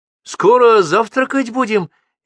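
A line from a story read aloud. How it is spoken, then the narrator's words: Cheerful shout. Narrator (Russian): весело крикнул повар вместо приветствия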